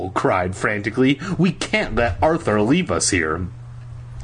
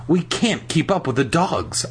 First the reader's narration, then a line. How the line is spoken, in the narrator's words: I gasped